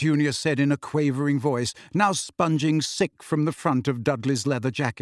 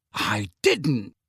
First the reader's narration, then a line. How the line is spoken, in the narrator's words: Harry said sharply